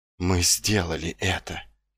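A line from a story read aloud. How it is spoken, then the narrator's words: Whisper. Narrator (Russian): прошептал он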